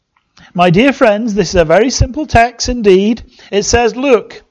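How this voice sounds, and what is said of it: Put-on Essex accent. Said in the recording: “my Essex accent”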